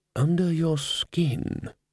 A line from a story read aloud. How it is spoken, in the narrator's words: murmured Ridcully